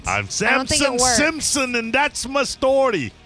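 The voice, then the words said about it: Bad put-on Jamaican accent, sounds Scottish. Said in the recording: “I don't like your accent. ... really bad. ... it sounds Scottish. ... Terrible.”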